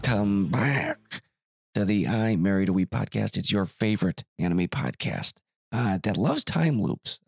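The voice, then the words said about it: Voice sounds ill. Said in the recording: “as you can probably hear it in my voice, a little under the weather”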